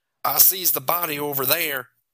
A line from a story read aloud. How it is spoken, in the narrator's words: Chris said in his southern drawl